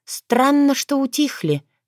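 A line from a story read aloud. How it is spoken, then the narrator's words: Sighing. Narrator (Russian): вздохнула Таня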